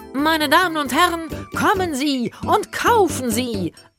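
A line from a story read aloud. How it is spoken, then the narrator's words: Bellowing. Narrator (German): brüllte Dr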